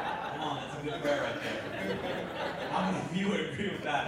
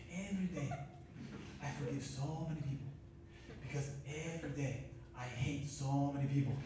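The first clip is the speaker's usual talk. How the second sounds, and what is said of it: Imitated Korean-accented English. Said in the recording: “I'm going to try to do his accent, because he's a little Asian guy”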